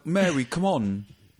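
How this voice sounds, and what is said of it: Mock street London British accent. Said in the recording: “he kind of talks like a... like a kind of street Michael Caine”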